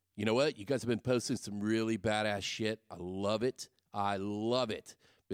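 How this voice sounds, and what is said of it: Congested, sniffly voice from cold. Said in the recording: “I've got a little bit of a cold, ... Kind of sniffly. It is allergy season.”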